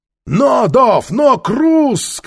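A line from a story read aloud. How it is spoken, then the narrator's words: Shouting. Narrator (Russian): крикнул Нефер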